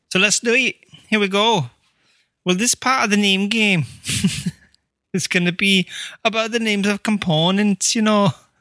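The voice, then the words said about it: Deliberately bad put-on accent. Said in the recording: “This is a terrible accent.”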